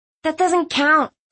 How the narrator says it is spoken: Thistle whined

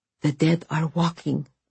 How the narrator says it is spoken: Vasya whispered

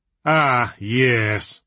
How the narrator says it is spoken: said Diablerie in a bored tone

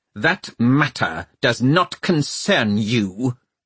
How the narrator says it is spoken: he snapped

